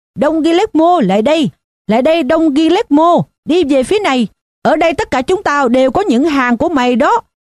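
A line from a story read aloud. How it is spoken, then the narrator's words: Shouting. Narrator (Vietnamese): có một người trong hàng hét lên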